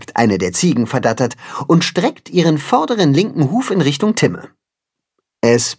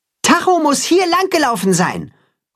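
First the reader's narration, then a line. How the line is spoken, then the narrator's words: Calling out across distance. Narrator (German): ruft Richtung Weide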